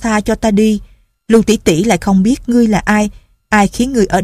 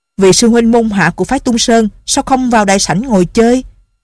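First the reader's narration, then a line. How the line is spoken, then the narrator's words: Loud, angry. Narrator (Vietnamese): Không dằn được tức giận, hắn giọng một cái rồi lớn tiếng nói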